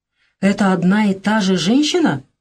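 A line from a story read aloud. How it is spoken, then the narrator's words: Admiring question. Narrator (Russian): восхищенным тоном спросил хирург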